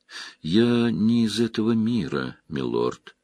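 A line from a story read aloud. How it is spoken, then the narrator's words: Plain. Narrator (Russian): сказала Селин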